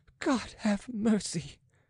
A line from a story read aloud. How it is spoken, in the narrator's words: gasping